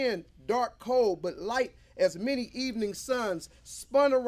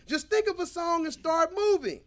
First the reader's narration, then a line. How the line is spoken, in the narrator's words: Ray shouted